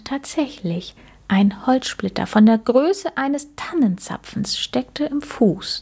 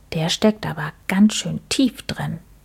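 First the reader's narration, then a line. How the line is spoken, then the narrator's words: Quiet speech. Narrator (German): sagte Max leise zu Mucks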